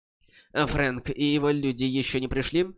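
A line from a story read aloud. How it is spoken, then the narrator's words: Plain. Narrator (Russian): спросил Фэй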